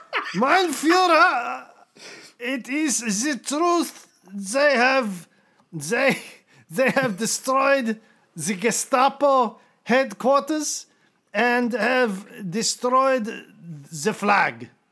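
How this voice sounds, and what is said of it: Put-on German accent. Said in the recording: “I do a German accent.”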